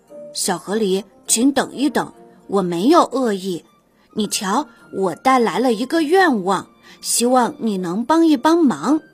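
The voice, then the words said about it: Very sincere, earnest voice. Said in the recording (Chinese): “用非常诚恳的声音说”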